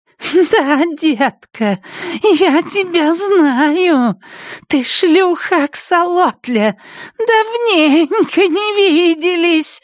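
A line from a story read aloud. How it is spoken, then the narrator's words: High whistling voice. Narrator (Russian): отвечает она высоким свистящим голосом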